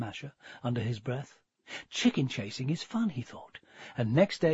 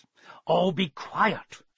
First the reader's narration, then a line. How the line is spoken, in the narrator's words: growled